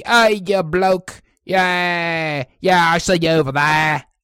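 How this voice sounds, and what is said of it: Put-on Cockney accent. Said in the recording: “You want the Cockney? You want the Cockney? ... Yeah, Cockney?”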